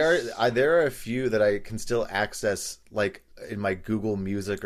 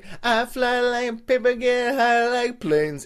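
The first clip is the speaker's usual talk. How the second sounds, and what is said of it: Singing in falsetto. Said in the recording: “singing my falsetto”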